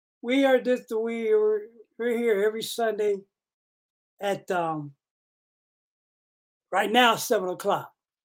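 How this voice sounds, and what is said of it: Voice sounds slightly off. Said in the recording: “my voice is a little funky acting.”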